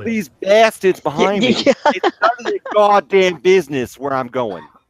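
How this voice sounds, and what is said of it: Put-on Boston accent. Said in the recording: “that's my best Boston accent”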